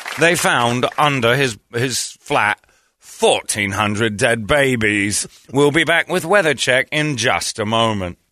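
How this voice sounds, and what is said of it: Casual pompous British newsreader accent. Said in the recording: “British news ... the most casual delivery of terrible things ... they sound like pompous ... It's just that accent ... It's the accent.”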